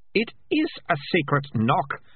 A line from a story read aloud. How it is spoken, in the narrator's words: Melissa snapped